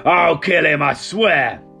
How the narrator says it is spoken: Hogni growled

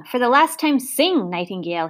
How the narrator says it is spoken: He shouted

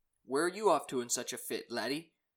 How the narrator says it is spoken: he said

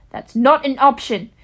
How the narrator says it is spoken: Steph snapped

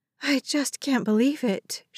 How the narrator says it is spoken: breathed

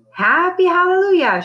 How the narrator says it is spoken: hollered when she woke up

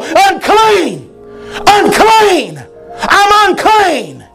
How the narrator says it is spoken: they would yell

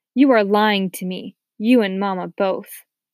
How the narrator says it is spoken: Anne-Marie said suddenly, her voice cold

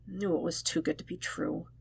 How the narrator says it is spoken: added under his breath

